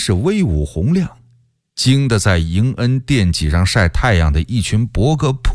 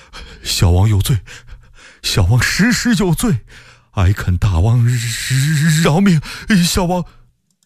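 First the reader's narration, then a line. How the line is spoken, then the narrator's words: Trembling voice. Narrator (Chinese): 福王不住地叩头，声音哆哆嗦嗦地说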